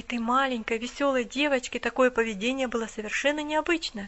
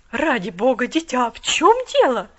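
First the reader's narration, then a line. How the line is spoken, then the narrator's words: Exclamation. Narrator (Russian): воскликнула она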